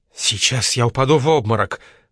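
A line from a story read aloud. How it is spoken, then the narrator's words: Faint mumble, deathly pale. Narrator (Russian): пробормотала мертвенно-бледными губами миссис Хант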